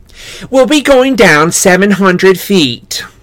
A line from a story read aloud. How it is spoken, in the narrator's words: the tour guide said cheerfully